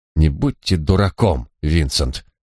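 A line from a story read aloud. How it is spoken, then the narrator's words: Firm, decisive tone. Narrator (Russian): решительным тоном проговорил хозяин поместья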